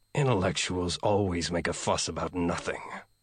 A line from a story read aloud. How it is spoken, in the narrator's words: he muttered